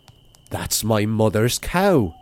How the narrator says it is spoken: cried Seamus

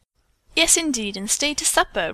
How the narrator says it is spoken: Rose said brightly

